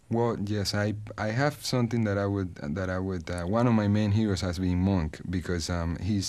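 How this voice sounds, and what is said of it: Charming foreign accent. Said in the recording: “how charming your accent is”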